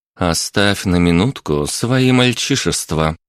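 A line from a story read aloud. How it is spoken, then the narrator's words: Gentle request. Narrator (Russian): мягко попросила Виктория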